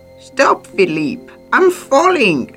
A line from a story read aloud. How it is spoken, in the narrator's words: Maurice shouts